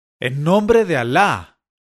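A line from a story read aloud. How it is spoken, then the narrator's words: Shouted. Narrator (Spanish): gritó Grano de Belleza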